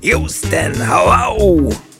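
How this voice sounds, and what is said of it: Imitates a radio host's voice. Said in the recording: “Well, not the best impersonation”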